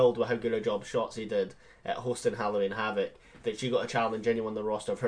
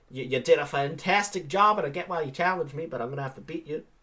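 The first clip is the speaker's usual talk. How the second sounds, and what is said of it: Failed Australian accent, sounds redneck. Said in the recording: “That was not an Australian accent at all. ... I focused so much on the female that I forgot what I was doing and just went redneck.”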